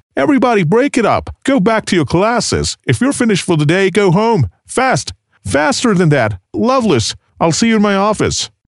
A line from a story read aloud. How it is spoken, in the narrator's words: the headmaster DeMeo's voice called out